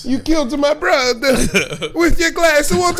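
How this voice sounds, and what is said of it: Put-on Italian accent. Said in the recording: “I don't know why it was Italian... It is the most fun accent... The motherland came out of you on that one.”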